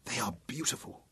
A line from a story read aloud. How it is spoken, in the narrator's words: whispered Memnon